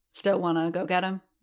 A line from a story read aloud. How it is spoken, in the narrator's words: Boba asked